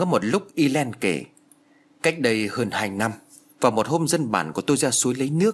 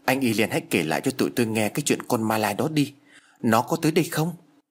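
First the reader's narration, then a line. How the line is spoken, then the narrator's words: Trembling fearful pleading. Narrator (Vietnamese): Anh chàng nhát gan nhất vừa run rẩy vừa van lơn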